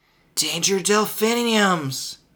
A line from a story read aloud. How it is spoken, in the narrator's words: Marty gasped